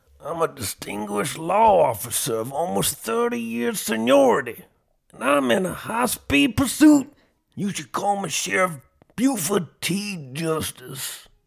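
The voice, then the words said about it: Sheriff Buford T. Justice impression. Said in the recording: “I've heard that impression. ... some 80 movies reference”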